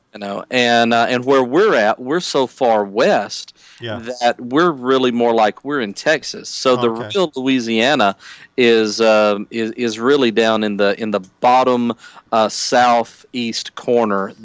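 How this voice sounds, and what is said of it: Southern US accent. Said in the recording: “I love your accent.”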